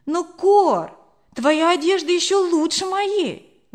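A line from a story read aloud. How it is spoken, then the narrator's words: Exclaimed. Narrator (Russian): воскликнула я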